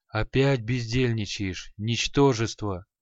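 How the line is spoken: Creaky rasping. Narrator (Russian): Проскрипел Халай

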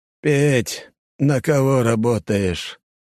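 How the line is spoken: Flat, lifeless question. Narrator (Russian): Таким же ровным, безжизненным голосом, как у патриарха, спросил деда Костя

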